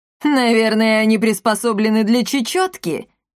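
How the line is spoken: Short laugh. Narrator (Russian): хохотнула Каптильда

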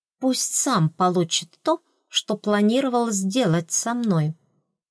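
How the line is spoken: Quiet hiss. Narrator (Russian): сказала я, и тихому шипению в моем голосе позавидовал бы сам первый принц

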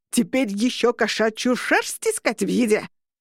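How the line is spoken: Roaring. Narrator (Russian): взревел Орро

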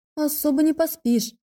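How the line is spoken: Sighing complaint. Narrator (Russian): пожаловалась я, вздохнув

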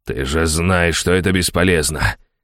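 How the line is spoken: Hissing in pain. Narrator (Russian): зашипел от боли Каин

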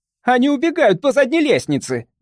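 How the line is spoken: Shrieked. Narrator (Russian): взвизгнула мисс Хэкман

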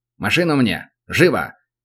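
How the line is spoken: Barked over radio. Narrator (Russian): рявкнул он в эфир

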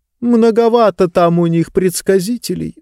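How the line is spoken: Sighing. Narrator (Russian): вздохнула книга

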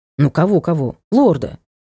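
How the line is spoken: Muttering. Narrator (Russian): буркнул он

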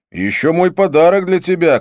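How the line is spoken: Shout. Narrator (Russian): крикнул я

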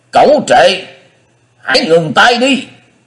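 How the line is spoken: Roaring. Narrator (Vietnamese): Tứ Hải Thiên Dương Đông Phương Lượng gầm vang

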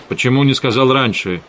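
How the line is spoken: Sharp question. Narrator (Russian): резко спросил Эдгар

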